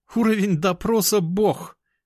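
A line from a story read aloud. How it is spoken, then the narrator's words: Loud laughter. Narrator (Russian): расхохоталась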